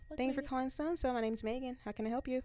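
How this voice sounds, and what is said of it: Put-on customer service phone voice. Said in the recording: “what's that phone voice? ... What's your white girl's voice? ... that's not exactly the same.”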